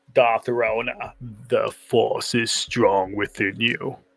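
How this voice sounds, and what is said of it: Attempted deep-voiced impression of another person. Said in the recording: “That was my best attempt at James Earl Jones. Not gonna happen. ... Couldn't get down to that octave. ... And my accent wasn't right.”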